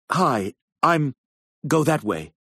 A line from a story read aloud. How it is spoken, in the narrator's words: the female said urgently